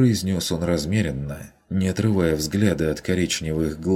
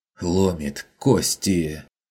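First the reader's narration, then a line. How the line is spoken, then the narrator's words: Pained wheezing objection. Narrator (Russian): С болезненным хрипом возразил Хагнер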